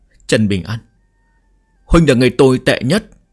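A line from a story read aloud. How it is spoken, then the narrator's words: Choked-up sobbing. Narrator (Vietnamese): Cố Sán quay đầu lại nghẹn ngào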